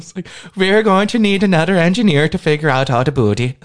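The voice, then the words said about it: Put-on Norwegian accent, sounds Irish. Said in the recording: “Oh, that's Irish. ... That's not Irish. ... What I just did. That was like Norwegian. ... if I do it like that, yeah, it could be Irish.”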